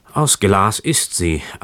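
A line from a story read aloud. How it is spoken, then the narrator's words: Man sighing heavily. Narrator (German): antwortete der Mann und seufzte noch schwerer als vorher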